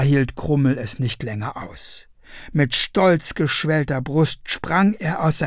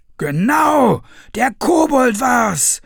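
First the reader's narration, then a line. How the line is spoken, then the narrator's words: Villagers shouting. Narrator (German): schrien auch die anderen Dorfbewohner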